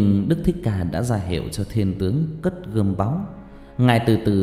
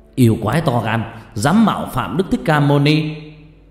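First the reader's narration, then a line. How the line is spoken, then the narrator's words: Shouting warrior. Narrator (Vietnamese): một thiên tướng đứng gần rút lưỡi gươm sáng loà lao tới, che cho Đức Thích Ca mà hét lên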